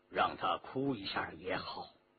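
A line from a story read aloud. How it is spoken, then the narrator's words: Low voice. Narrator (Chinese): 周仲英低声说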